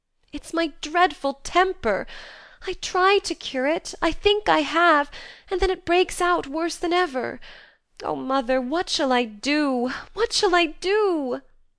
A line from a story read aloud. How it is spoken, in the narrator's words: cried poor Joe in despair